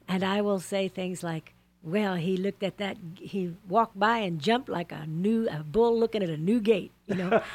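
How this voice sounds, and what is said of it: Slight Texan accent. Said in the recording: “I'm a Texan ... I can tell that accent just a touch”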